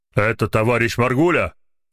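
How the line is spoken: Booming deep bass, phone. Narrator (Russian): прогремел из трубки густой бас

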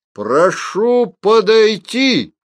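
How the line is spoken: Loud demand. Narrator (Russian): громко потребовал Филин

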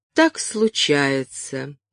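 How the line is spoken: Gentle, affectionate. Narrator (Russian): ласково сказал ему Хьюго

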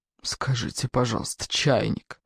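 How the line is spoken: Grumbling under breath. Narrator (Russian): ворчал майор себе под нос

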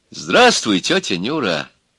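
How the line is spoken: Affectionate. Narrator (Russian): ласково сказал электрик

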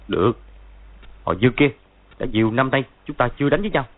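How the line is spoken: Harsh, gritted voice. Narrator (Vietnamese): Võ Tu Văn gằn giọng nói

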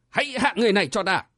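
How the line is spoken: Old man's shout. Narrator (Vietnamese): Lão đạo sĩ mũi quặp quát lên

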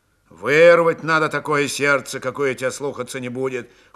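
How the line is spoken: Cold advice. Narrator (Russian): холодно посоветовал Григорий

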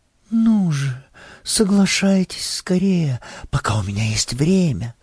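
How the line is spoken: Whispered. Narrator (Russian): шептала она

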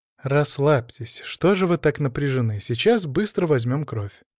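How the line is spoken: Soft soothing voice. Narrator (Russian): мягко сказала медсестра

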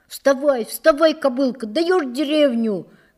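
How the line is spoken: Shouting. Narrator (Russian): кричал Дневальный

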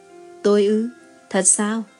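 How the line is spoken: Smiling soft question. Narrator (Vietnamese): Anh mỉm cười phụ họa cùng cô, khẽ hỏi lại

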